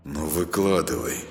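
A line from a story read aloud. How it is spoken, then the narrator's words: Said through gritted teeth. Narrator (Russian): сквозь зубы произнес он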